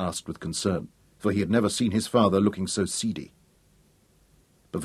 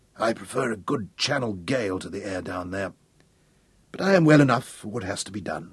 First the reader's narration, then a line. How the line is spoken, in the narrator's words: he answered hoarsely